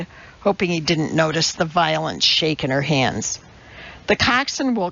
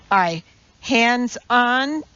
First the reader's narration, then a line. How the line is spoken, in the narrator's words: yelled the coxswain